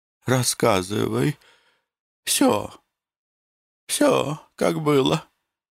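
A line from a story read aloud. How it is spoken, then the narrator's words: Muffled weak whisper. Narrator (Russian): глухо шептала Татьяна Власьевна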